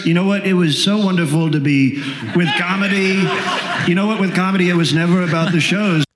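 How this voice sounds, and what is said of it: Donald Trump impression. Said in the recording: “his Trump impression ... it just sounds exactly like Trump”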